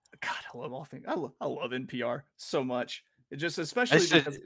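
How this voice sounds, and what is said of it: Usual voice. Nothing is said of it.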